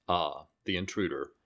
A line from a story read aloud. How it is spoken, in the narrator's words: the ruler calmly says